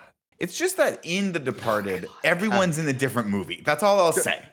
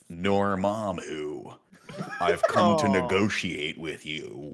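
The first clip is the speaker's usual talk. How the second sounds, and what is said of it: Benedict Cumberbatch as Doctor Strange impression. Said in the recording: “your impression of Benedict Cumberbatch in Doctor Strange ... it starts with a jaw ... His jaw already started like unhinging and loosening up.”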